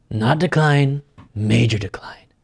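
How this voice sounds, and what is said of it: Imitates another person's voice. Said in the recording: “my Trump impression, it's dying... now it's falling apart... it was mediocre. Now it's falling beyond that”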